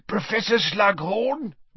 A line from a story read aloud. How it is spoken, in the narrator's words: wheezed, his jowls a-quiver and the maniacal light of mischief detection